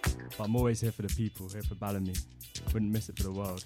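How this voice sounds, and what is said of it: Strained, failing voice. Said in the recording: “I think you can hear, but my voice is failing me.”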